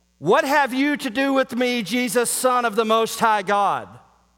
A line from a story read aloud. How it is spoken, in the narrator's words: crying out, screaming with a loud voice